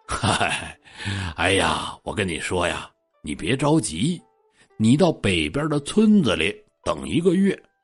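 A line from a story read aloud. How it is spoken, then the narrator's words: Old man, gentle smile. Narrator (Chinese): 老头微微一笑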